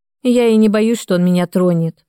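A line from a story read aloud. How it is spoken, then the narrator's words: Grumble. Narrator (Russian): проворчала я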